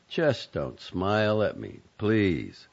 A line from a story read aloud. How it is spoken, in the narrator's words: Zoe said evenly